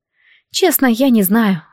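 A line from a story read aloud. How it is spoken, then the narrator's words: Sigh. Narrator (Russian): вздохнула Диана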